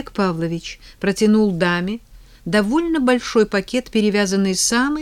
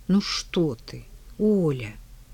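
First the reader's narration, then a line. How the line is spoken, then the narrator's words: Quiet reply. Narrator (Russian): тихо ответила Рада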